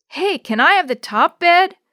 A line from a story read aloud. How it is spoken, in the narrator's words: hollered Chris